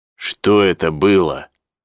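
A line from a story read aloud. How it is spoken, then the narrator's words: Plain. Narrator (Russian): спросил он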